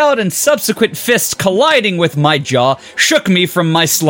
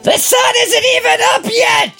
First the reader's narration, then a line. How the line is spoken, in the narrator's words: she shouted